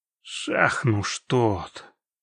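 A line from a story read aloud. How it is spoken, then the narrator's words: Quiet curse. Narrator (Russian): выругался Геральт тихо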